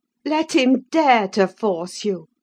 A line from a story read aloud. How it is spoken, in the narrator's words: I cried